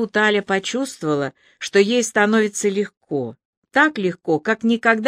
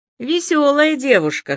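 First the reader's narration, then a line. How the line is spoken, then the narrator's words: Amused snort. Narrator (Russian): хмыкнул он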